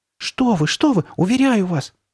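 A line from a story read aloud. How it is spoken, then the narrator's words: Glad exclamation. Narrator (Russian): воскликнула Карли Бет, обрадовавшись, что он начинает сдаваться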